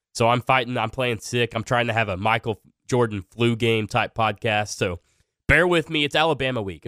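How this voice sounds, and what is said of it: Sick, slightly off-sounding voice. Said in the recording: “my voice sounds a little funny ... I'm a little bit under the weather”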